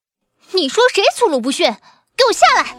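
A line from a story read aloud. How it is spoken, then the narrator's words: Angry. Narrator (Chinese): 沈群玉怒道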